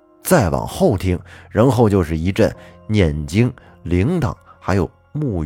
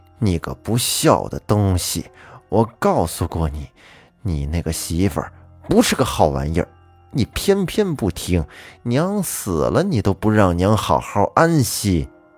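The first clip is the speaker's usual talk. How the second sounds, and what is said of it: Imitated old woman's voice. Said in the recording (Chinese): “有一个老太太的声音说”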